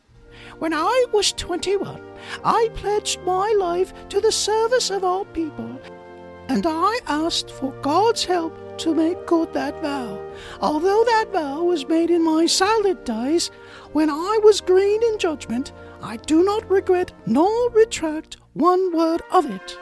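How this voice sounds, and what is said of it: Bad impression of the Queen. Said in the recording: “that bad impersonation of the Queen”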